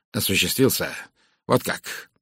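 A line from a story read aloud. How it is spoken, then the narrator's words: Near growl. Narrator (Russian): он почти рычал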